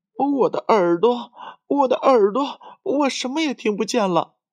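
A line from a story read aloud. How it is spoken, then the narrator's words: Frightened crying shout. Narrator (Chinese): 玲玲吓得直哭，还大声喊着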